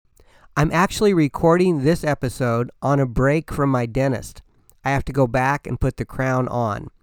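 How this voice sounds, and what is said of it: Slightly altered, numb-mouthed speech. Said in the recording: “my voice sounds a little bit different today, it's because I'm numb... The front of my face feels like it's been smacked by a prize fighter.”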